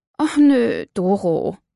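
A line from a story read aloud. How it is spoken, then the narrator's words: Groaning. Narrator (German): stöhnte Birgit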